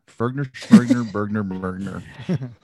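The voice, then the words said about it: Mock Swedish Chef gibberish voice. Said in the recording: “the Swedish chef”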